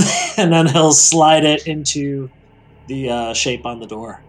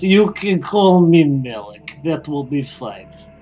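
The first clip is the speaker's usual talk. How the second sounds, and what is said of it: Put-on Slavic accent. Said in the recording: “I'm going to start calling you ... That accent.”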